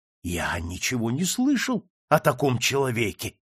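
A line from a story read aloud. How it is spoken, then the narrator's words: Exclamation. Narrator (Russian): воскликнул товарищ Фанатюк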